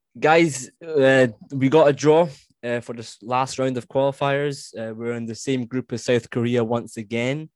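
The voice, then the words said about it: Scottish accent. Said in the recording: “your beautiful Scottish accent”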